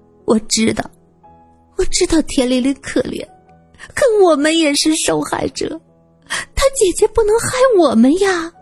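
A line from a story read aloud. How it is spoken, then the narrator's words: Crying. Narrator (Chinese): 赵清平哭着说道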